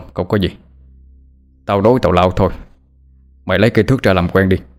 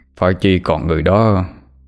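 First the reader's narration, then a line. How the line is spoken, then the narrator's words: Sighing lament. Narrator (Vietnamese): Hai Đèn thở dài mà than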